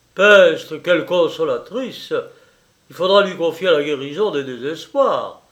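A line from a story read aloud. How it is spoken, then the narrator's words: Ironic grumble. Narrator (French): grommela le marquis de Valnoir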